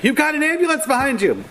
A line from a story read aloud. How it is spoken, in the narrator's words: yelling